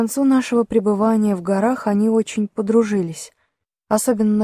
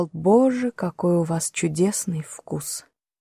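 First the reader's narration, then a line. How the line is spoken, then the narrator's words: Whisper. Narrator (Russian): Филипп шептал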